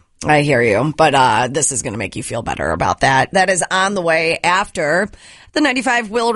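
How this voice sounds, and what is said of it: Crackly, raspy voice. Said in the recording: “my voice is going to be a little crackly ... I think you sound ... Very sexy, like Brenda Vaccaro. ... It's pretty bad.”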